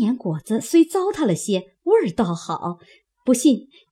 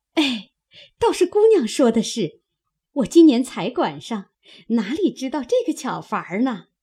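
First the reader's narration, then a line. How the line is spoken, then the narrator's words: Laughing. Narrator (Chinese): 因又笑着说道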